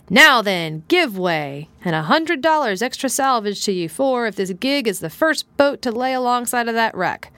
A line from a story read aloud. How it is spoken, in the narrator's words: he shouted